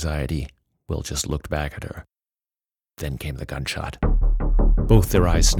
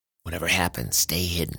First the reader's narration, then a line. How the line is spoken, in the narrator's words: Will muttered